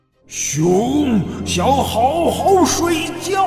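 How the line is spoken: Roaring. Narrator (Chinese): 熊咆哮着说

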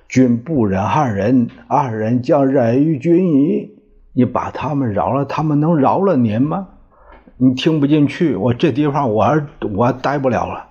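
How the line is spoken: Sighing. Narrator (Chinese): 常玉娇叹了一口气

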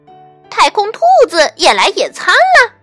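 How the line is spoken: Shout. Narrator (Chinese): 温妮喊道

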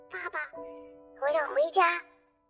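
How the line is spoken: Quiet voice. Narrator (Chinese): 一边小声的说

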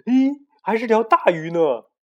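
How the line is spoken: Sudden child's shout. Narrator (Chinese): 小胖墩儿突然喊道

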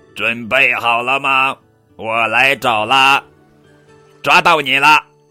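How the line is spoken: Robotic shout. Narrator (Chinese): 机器皮特喊

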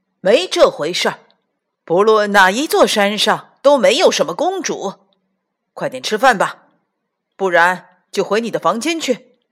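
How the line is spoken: Angry, loud. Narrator (Chinese): 爸爸生气了，大声说

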